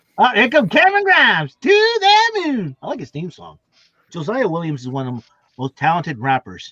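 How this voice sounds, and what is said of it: Usual voice. Nothing is said of it.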